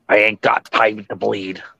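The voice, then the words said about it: Imitates another person's voice. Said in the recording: “you had elements of a good Jesse impression. ... You just didn't get there. It was close.”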